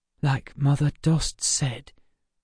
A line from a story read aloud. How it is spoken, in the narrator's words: whispered Emma